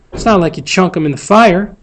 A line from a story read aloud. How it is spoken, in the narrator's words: Jem growled